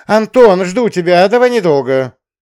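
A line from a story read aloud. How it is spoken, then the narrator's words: Calling out after someone. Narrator (Russian): крикнула она вслед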